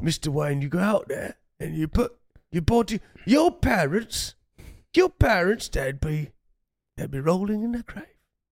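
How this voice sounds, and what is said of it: Strange accent, hints of Michael Caine. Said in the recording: “Some strange accent, ... there was elements of Caine in there.”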